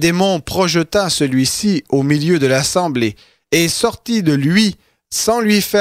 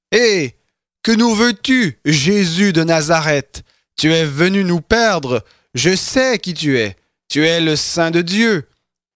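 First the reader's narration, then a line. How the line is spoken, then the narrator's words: Loud demonic cry. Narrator (French): un homme qui avait un esprit de démon impur et qui s'écria d'une voix forte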